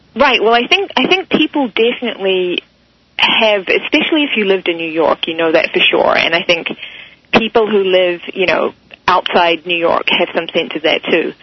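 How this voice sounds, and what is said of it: New Zealand accent. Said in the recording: “I detect a southern accent, not from the South Bronx, but perhaps from Australia. ... It's New Zealand. ... You're a Kiwi.”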